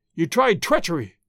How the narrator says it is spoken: he cried

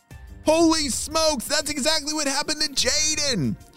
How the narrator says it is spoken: shouted Ava into the walkie talkie

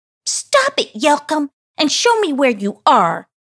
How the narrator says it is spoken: she screamed out in an irritated tone

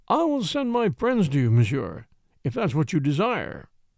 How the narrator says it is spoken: said haughtily

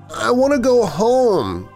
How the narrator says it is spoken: whimpered, finally managing to find some sort of voice

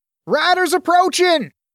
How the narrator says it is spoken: The shout came from above

